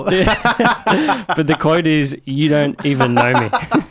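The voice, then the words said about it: Weak put-on Swedish accent. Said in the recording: “I was instructed to say this in a Swedish accent, but my Swedish accent isn't great unless I'm saying Swedish words.”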